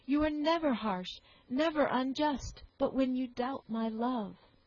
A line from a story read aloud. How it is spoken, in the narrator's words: cried the soldier with warmth